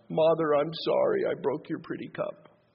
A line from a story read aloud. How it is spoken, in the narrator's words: sobbed